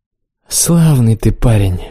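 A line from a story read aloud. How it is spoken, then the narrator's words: Grumbled. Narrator (Russian): буркнул он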